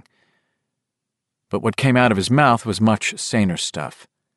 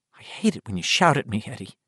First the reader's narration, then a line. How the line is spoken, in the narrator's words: she whispered